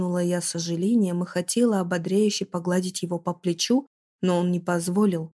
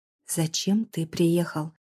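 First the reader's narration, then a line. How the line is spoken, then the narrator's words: Hissed. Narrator (Russian): Зашипела я на Дамира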